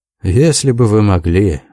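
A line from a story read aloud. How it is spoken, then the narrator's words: Young man sighing. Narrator (Russian): вздохнул молодой человек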